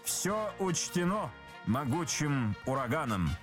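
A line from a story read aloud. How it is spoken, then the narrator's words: Plain. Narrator (Russian): сказал О'Бендер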